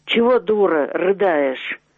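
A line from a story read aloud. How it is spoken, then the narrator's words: Menacing. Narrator (Russian): Синявский сказал грозно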